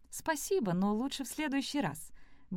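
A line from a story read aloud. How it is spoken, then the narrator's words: Quick. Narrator (Russian): быстро ответила она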